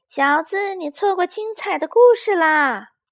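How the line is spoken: Loud shout. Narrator (Chinese): 那只兔子 大声喊道

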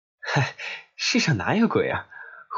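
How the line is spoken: Laughing. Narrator (Chinese): 我笑着说

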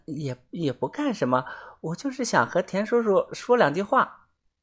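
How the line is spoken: Quiet, hesitant. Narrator (Chinese): 泡菜妹小声的说

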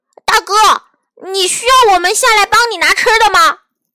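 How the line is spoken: Loud shout. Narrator (Chinese): 熊弟弟也大声叫道

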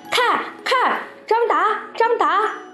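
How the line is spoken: Many voices shouting together. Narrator (Chinese): 全班同学喊成一片

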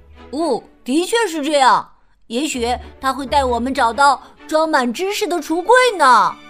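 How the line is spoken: Loud. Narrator (Chinese): 闹闹也大声说

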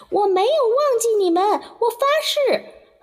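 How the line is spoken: Shouting. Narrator (Chinese): 艾希正好利用这个时间对他们叫喊

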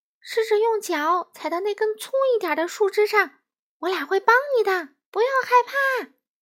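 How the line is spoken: Shouting. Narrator (Chinese): 两只松鼠大喊道

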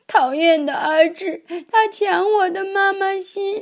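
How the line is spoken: Crying child. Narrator (Chinese): 小苹果哭着说

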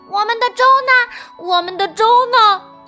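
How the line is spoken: Giggling. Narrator (Chinese): 小熊咯咯的笑了起来

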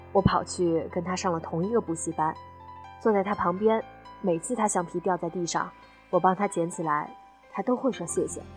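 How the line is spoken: Soft, reserved. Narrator (Chinese): 后桌矜持了一下，才轻声开口讲道

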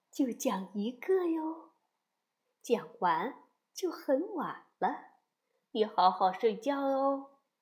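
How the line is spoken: Soft, gentle mother. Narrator (Chinese): 妈妈轻声地说

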